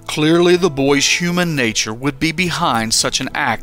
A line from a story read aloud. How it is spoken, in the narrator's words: he said